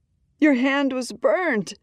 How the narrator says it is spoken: Red cries

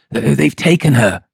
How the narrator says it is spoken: he replied hoarsely

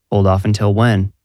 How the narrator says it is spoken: asked

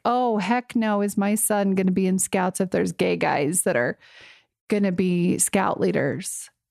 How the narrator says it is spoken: he started to laugh like

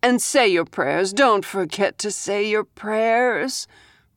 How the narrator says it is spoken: Rose sighed

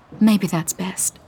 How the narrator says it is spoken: she says quietly

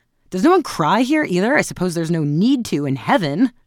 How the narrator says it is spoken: she said, straightening her loosened braids with a laugh

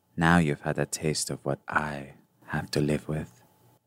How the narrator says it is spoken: A shadowy Gaspar will whisper to you

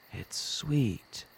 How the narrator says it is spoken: he mumbled

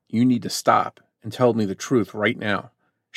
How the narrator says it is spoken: he sternly said

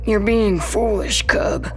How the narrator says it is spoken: he wheezes

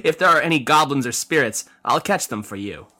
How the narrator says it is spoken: Yin replied with a laugh

